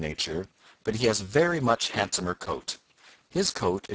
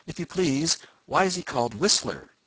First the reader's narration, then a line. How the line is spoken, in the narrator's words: asked Johnny Chuck eagerly